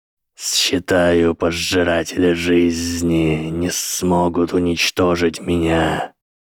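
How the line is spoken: Hissing. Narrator (Russian): прошипел профессор Квирл

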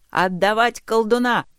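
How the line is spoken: Rider shouting. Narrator (Russian): крикнул один из всадников, преследующих отряд

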